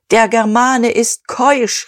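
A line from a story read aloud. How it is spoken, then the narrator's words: Called out. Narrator (German): rief Dieterich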